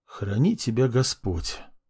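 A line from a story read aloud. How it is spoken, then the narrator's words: Whisper. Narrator (Russian): прошептал я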